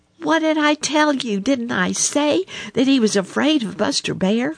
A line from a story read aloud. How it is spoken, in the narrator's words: cried Little Joe Otter, dancing about with excitement